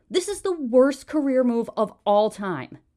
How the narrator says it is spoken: she spat at him

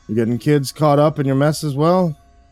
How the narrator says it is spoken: sighed

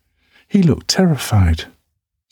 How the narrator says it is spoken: adds, her voice bright, singing every word

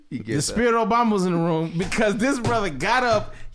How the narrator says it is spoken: yelled Obama

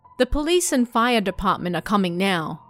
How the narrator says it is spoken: I said

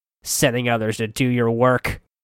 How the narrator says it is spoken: Wernit growled

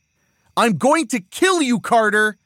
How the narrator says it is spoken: Ariel yells

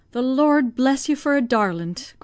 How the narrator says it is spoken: cried the old woman, devoutly

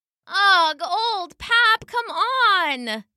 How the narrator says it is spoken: whined the sheep

